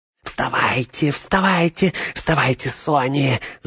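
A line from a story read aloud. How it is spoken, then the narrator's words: Whisper. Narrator (Russian): зашептал он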